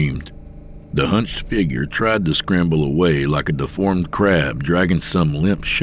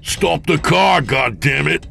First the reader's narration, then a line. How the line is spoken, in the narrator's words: James bellowed